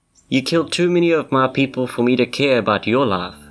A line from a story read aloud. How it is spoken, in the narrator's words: the knight replied